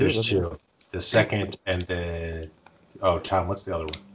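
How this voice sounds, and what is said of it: Usual voice. Nothing is said of it.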